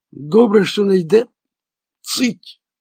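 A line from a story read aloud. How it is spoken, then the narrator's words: Warning exclamation. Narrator (Ukrainian): застережливо вигукнув Лоурі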